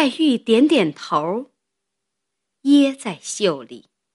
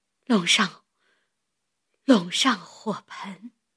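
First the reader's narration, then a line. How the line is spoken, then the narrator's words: Weak, breathless. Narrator (Chinese): 黛玉喘了一会子，又道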